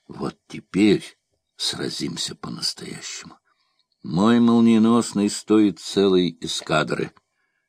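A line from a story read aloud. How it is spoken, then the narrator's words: Deep sigh, then speaking. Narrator (Russian): он глубоко вздохнул и сказал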